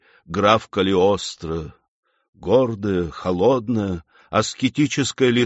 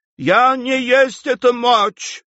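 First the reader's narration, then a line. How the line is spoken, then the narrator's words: Desperate shout. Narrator (Russian): в отчаянии закричала Лоренцо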